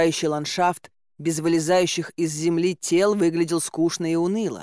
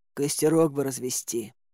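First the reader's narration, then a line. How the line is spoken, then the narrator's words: Sighing. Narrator (Russian): вздохнул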